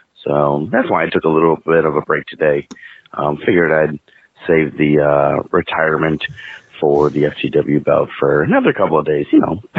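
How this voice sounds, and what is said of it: Sore, strained voice. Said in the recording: “If you can't tell by my voice, it's a little bit sore.”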